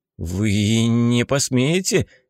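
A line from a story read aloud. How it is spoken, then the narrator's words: Somewhat unsure. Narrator (Russian): произнес Сивый несколько неуверенно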